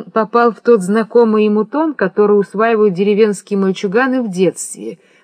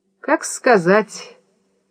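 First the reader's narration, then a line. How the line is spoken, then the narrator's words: Mumbling. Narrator (Russian): промямлил Родион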